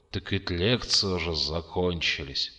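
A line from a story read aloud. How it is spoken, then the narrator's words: Muttered. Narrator (Russian): пробормотал Михаил Васильевич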